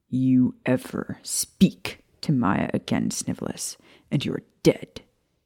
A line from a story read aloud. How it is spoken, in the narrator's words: he growled dangerously